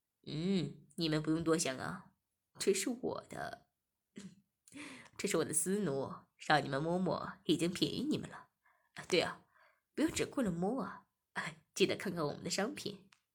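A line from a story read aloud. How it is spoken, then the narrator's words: Laughing. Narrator (Chinese): 店主笑着说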